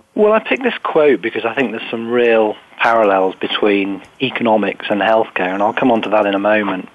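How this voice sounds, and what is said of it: British accent. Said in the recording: “you can tell from the accent, I'm based over here in the UK”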